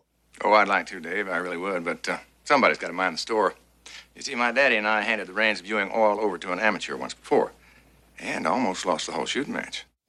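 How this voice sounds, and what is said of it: Texas accent. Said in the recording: “the Texas accent, they got from TV.”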